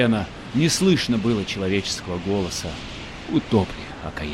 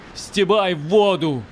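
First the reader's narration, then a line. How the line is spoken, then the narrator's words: Shouting. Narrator (Russian): кричала Марютка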